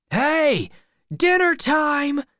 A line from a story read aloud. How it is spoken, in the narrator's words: shouted